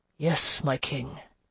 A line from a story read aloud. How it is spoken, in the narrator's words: Marc de Trevelyan murmured